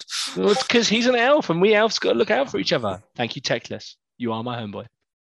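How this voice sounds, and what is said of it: English home counties accent. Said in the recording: “Sounds so wrong in a home counties accent.”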